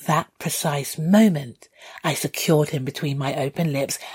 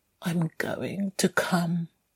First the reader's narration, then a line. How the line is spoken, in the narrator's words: he mumbled